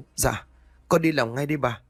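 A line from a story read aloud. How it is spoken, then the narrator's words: Frightened girl. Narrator (Vietnamese): Con bé giúp việc sợ hãi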